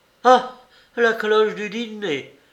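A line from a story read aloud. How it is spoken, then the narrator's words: Exclaiming. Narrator (French): s'écria Mademoiselle Boncourt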